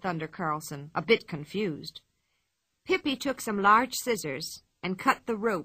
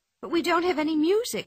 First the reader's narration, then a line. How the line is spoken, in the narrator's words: she said in a worried voice